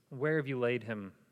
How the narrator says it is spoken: he asked

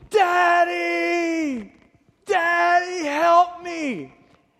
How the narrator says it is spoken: She is screaming at the top of her lungs

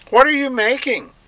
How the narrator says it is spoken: another shouted even louder

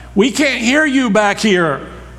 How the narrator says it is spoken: a man on the back row yelled from the back

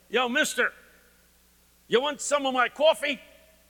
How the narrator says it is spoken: he yells

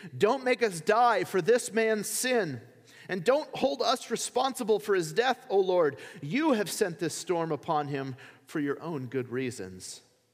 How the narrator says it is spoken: pleaded

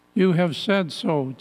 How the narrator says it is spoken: Jesus replied

